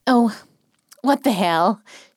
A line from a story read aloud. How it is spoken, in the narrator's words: said, releasing a hard sigh of indecision